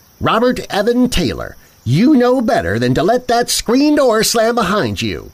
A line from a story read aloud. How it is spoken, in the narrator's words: called out after him